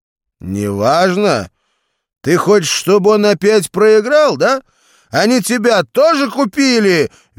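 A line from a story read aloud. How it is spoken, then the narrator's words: Shrill shout. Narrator (Russian): визгливо выкрикнул Валера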